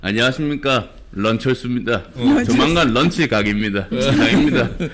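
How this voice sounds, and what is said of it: Impression of Ahn Cheol-soo. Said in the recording (Korean): “성대모사가 만만치가 않아 안철수는. ... 곧 이제 안철수 타임이 오지 않겠습니까?”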